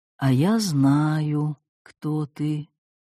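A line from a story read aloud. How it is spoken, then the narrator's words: Slow smiling whisper. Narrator (Russian): сморщилась в улыбке, медленно прошептала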